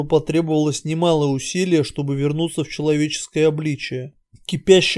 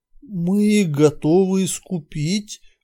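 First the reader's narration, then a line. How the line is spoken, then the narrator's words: Grim sorcerer's announcement. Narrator (Russian): мрачно сообщил колдун Святозар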